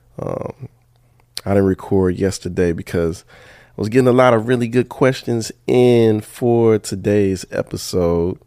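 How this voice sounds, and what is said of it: Early-morning voice. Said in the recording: “It's early in the morning. I know you probably hear it in my voice.”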